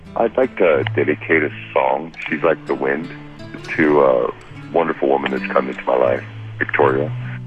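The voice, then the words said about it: Radio-announcer style voice. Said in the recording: “You got a radio voice.”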